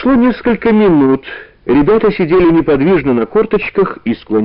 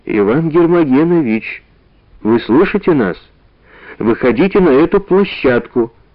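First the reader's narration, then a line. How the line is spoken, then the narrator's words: Quiet but clear. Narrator (Russian): сказал негромко, но внятно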